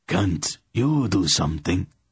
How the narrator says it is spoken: croaked

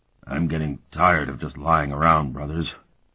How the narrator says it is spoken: he said in a slurred voice

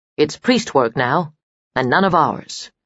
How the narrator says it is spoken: she said firmly

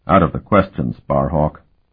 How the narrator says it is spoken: Tell said quite firmly

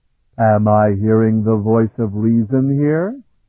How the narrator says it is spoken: Heldon rumbled mildly

